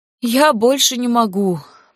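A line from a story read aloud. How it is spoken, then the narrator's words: Groaning in pain. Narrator (Russian): простонала Карисса, морщась от боли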